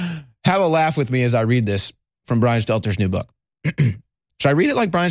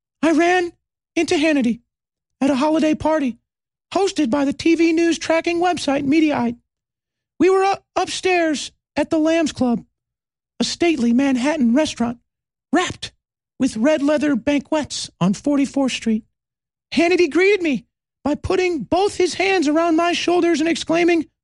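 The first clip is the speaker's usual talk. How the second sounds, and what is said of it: Imitates another person's voice. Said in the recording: “Should I do a Brian Stelter book voice while I read this? ... we'll do it in the Brian Stelter voice ... I think Brian Stelter has a direct hit of helium ... my best impression, helium-free, of Brian Stelter”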